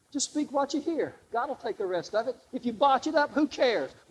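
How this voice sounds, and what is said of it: Southern US accent. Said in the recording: “I talk with a southern accent”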